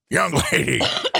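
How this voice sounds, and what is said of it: Sudden very deep voice. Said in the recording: “you got a very deep voice all of a sudden”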